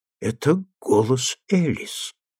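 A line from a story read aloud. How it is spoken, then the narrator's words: Hoarse. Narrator (Russian): хрипло проговорил мистер Мэйдью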